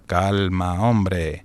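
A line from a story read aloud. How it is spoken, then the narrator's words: Low, calm voice. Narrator (Spanish): dijo Mitty en voz baja y serena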